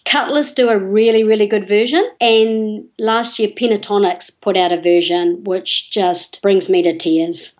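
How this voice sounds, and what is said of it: New Zealand accent. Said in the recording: “Sorry, is it my accent?”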